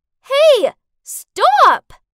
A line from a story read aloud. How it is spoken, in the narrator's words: I shouted after him